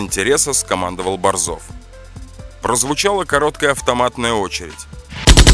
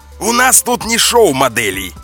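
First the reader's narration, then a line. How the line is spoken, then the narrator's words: Bellowing. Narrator (Russian): гаркнул Борзов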